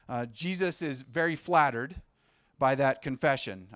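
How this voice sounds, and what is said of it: Sarcastic tone. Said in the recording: “I say that sarcastically.”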